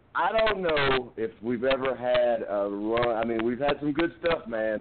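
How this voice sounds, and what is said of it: Strained, worn-out hoarse voice. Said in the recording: “My voice is a wreck. I couldn't even do commentary yesterday. I literally had blown my voice out”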